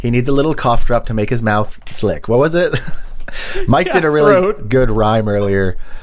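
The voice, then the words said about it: Sounds sick. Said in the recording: “If I sound a little sick, it's because I am, and I haven't talked all week.”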